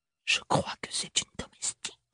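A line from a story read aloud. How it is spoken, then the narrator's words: Whispered in the ear. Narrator (French): souffla la tante dans l'oreille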